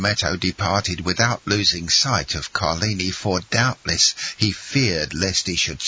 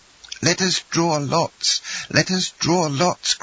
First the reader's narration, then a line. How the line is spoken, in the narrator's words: cried all the brigands when they saw the chief